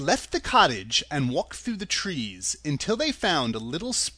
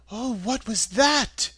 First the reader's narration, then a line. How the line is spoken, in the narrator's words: asked timidly